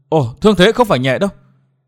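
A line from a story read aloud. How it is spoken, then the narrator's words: Sudden cry. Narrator (Vietnamese): Đột nhiên Thiên Hương công chúa bật kêu lên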